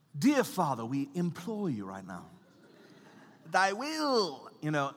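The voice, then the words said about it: Put-on British accent, archaic prayer style. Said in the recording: “throw in all of a sudden these and thous and get a British accent”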